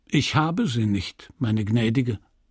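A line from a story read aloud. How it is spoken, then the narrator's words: Calm. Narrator (German): sagte er ruhig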